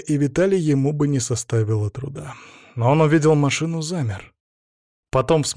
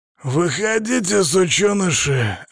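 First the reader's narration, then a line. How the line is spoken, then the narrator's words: Barked. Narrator (Russian): рявкнул он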